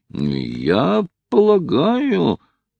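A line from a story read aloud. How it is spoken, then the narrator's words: Conflicted mumble. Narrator (Russian): промямлил Хайрем, раздираемый двумя чувствами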